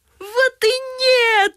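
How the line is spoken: Joyful group shouting. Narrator (Russian): радостно закричали советники

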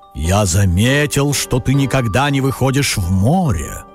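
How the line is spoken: Deep bass voice. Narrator (Russian): пробасил он

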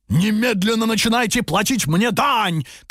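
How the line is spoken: Ogre shouting. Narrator (Russian): кричал людоед

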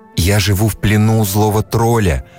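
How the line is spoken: Sighed. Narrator (Russian): вздохнула Лиза

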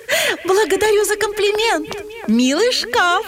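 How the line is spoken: Princess laughing. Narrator (Russian): засмеялась принцесса

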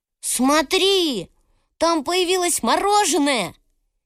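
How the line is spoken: Surprised boy shouting. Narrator (Russian): Один из мальчишек закричал удивленно

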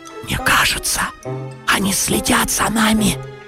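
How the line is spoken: Whisper. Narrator (Russian): прошептал Гриша

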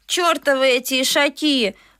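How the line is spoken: Gloomy grumble. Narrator (Russian): мрачно проворчала Наташа

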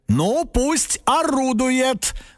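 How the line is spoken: Loud, as if to himself. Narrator (Russian): громко сказал папа, как будто бы сам себе

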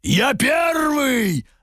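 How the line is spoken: Barked by many monstrous voices. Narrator (Russian): Рявкнули три драконьи глотки и людоед

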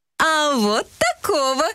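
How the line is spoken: Cheerful. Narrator (Russian): весело сказал И

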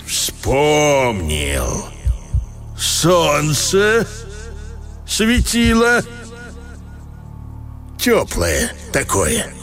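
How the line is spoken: Very slow. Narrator (Russian): немного помолчал и очень медленно произнес

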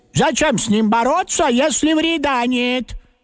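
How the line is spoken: Old woman, loud. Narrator (Russian): согласилась бабушка, тоже громко

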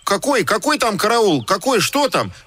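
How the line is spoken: Indignant, frightened clamor. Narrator (Russian): Возмущенно и испуганно загомонили буквы

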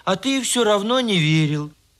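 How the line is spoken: Sighing. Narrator (Russian): вздохнул ослик

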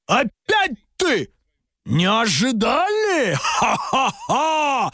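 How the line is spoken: Demonic ogre laughter. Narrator (Russian): Демонически захохотал людоед

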